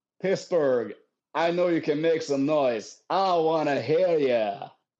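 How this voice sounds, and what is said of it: Performed crowd-hyping call. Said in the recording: “my best fucking impression... I use my voice”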